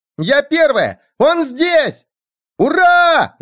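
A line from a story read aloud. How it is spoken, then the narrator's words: Shouting kids. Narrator (Russian): закричали сорванцы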